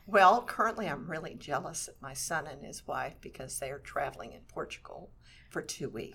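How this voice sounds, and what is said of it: Slightly froggy, hoarse voice. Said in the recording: “my voice is still a little bit froggy from all the coughing”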